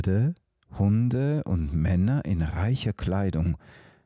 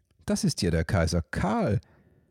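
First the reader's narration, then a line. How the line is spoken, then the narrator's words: Cheerful chirping. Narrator (German): zwitscherte Till fröhlich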